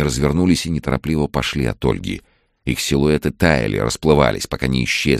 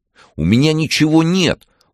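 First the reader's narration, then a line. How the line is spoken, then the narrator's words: Almost shouting. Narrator (Russian): Ольга уже почти кричала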